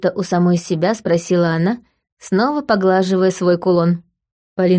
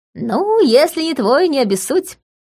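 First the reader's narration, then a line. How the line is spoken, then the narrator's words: Short laugh. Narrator (Russian): хохотнула Лика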